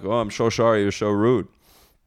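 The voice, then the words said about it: Put-on Dutch accent. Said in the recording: “That's my Dutch accent, by the way. It's just like a 10% Sean Connery's accent.”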